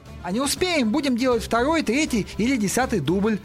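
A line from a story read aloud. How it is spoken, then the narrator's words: Irritated. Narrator (Russian): раздраженно ответил Пол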